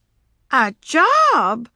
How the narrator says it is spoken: cried the sisters

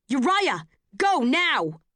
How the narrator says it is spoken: The shout rings with nothing on the street to soften the sound of it

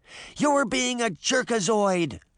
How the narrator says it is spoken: she shouted

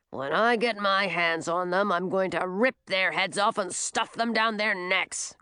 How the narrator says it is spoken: growled Leo

